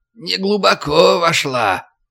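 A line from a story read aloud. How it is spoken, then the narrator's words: Creaky voice. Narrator (Russian): скрипучим голосом поведал Карл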